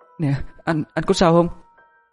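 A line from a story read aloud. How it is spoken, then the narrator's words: Frightened question. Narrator (Vietnamese): bà sợ hãi hỏi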